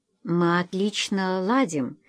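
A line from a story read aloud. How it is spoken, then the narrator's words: Quiet. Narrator (Russian): тихо сказала Эдвина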